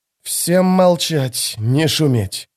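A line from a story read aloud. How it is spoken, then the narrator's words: Hiss. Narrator (Russian): прошипел Кальп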